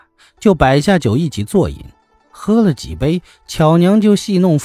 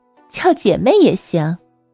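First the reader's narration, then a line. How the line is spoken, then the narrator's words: Laughing. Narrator (Chinese): 巧娘笑着说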